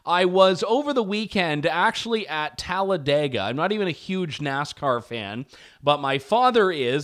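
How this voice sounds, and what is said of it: Slightly hoarse voice. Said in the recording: “I'm feeling a little bit hoarse.”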